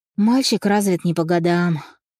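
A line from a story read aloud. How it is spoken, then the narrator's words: Sighing. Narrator (Russian): вздохнула Наталья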